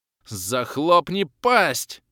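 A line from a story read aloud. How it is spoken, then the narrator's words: Frightened roar. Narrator (Russian): Взревел почище оборотня с перепуга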